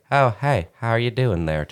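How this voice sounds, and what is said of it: Mr. Rogers impression. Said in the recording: “a little too like ... That was actually a pretty good impression”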